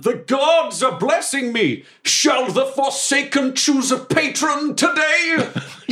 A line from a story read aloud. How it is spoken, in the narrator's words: I yell